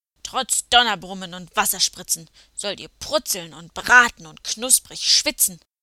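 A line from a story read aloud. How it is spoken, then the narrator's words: Roared with grunting. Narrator (German): brüllte er mit gräulichem Grunzen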